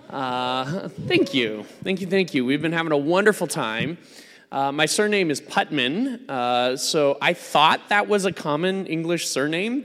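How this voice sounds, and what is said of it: American accent. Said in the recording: “You can tell from my accent that I'm not from around these parts. I am, I'm an American.”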